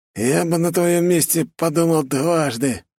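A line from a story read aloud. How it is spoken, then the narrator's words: Hoarse rasp. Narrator (Russian): захрипел колдун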